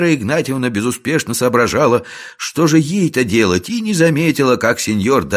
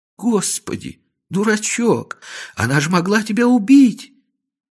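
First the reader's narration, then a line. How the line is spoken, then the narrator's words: Sobbing. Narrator (Russian): Вера Игнатьевна зарыдала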